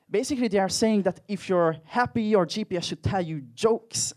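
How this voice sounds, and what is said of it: Hungarian accent. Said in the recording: “I'm personally from Hungary, as you can probably tell from my accent.”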